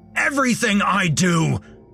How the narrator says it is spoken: he screamed

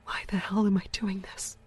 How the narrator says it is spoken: She whispered to herself in a shaky voice

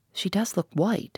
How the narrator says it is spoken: said Hannah

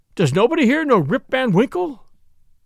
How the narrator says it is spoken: he cried out in despair

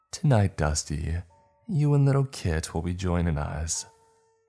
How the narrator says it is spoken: she cooed, and giggling in between words as she spoke

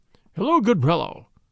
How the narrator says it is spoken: quoth he in a jovial voice

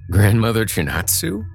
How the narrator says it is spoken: He said and laughed

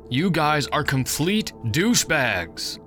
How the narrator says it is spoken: yelled

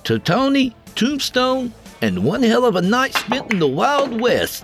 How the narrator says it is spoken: Dale said in a joyful tone

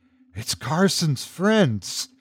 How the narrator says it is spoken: whispered under his breath

